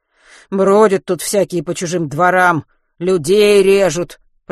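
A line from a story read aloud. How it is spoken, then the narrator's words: Grumbling. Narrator (Russian): проворчал дворник ему в спину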